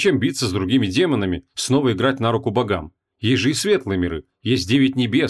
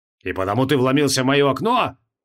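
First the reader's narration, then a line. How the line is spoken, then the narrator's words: Barked. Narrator (Russian): рявкнул маг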